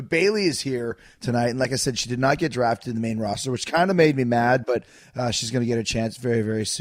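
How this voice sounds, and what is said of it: Usual voice. Nothing is said of it.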